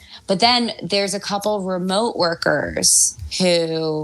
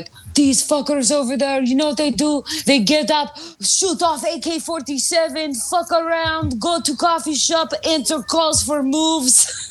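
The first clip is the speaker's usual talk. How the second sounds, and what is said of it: Good put-on Serbian accent. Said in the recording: “That was a really good Serbian accent.”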